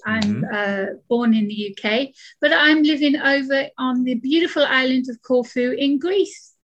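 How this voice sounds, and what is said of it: British accent. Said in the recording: “As we can tell from my accent, I'm British.”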